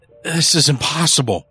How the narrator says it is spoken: Early stammered

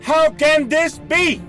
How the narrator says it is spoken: He screamed at a messenger who had just delivered some bad news

